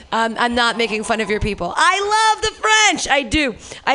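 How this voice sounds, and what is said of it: Usual voice. Nothing is said of it.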